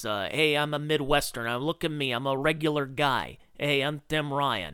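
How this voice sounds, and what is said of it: Mock Midwestern regular-guy accent. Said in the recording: “he has this this accent”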